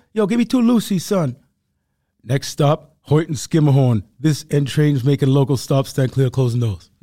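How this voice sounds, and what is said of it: Put-on Harlem New York accent. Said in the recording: “I just gave a perfect rendition of what a day in New York sounds like ... I was doing Harlem now. It's different. New Yorkers sound different.”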